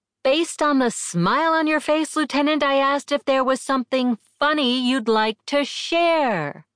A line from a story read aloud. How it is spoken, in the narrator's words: bellowed